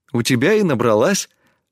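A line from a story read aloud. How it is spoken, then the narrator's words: Laughing reply. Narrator (Russian): рассмеялась в ответ Тесми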